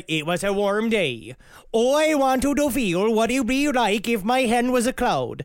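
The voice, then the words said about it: Put-on accent while quoting someone. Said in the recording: “I'm bad at this accent ... It's a good accent.”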